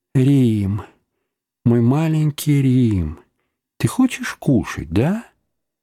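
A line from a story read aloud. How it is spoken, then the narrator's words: Warm voice. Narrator (Russian): теплым голосом говорил ему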